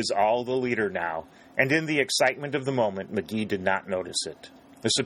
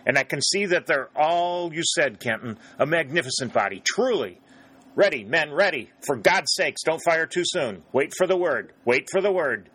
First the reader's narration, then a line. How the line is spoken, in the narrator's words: cried